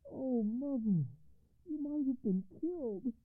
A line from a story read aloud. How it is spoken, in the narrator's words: cried the commander